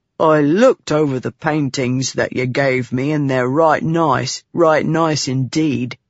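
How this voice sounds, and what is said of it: Slow Bav accent, overemphasized sounds. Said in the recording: “it's more like they have pebbles in their mouths. But they talk really slow with overemphasized sounds.”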